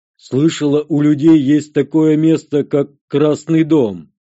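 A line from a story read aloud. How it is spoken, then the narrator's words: Loud declaration. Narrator (Russian): заявила Экна громко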